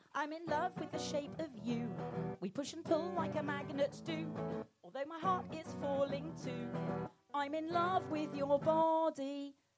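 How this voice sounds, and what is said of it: Sung imitation of another person's voice. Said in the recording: “What an uncanny impersonation. He could almost be here in the room.”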